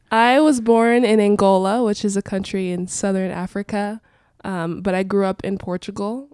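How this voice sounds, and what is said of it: Congested voice from a cold. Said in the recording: “My voice sounds a little weird today because I have a cold ... having to breathe through your mouth and talk through your mouth at the same time”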